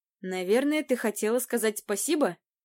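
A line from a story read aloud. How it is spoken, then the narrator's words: Snide remark. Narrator (Russian): ехидно заметил Райс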